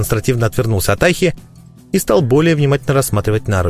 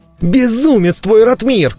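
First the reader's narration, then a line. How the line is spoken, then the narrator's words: Furious yell up close. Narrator (Russian): бешено заорал мне прямо в ухо Толик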